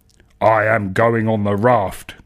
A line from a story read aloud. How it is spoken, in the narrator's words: grunts the grunty man